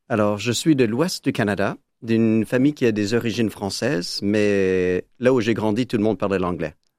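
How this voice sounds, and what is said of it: Speaks French with a foreign accent. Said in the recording (French): “Vous, vous avez un accent.”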